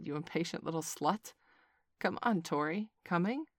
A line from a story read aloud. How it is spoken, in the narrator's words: sighed